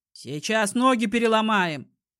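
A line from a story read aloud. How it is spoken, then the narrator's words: Shouted. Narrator (Russian): крикнул Стас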